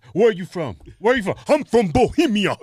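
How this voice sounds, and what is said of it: Attempted put-on African accent. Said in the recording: “I can't do an African voice... Came pretty close, though, man.”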